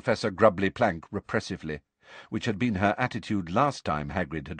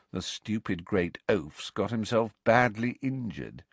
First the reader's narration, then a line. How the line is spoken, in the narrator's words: said Malfoy in an undertone, so that only Harry could hear him